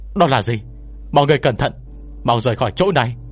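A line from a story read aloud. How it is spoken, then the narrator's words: Sudden loud shout. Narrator (Vietnamese): đột nhiên có người hét lớn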